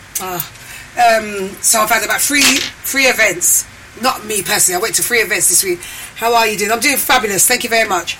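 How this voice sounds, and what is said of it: Hoarse voice. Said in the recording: “why my voice is like this. I sound a bit hoarse ... so forgive my voice”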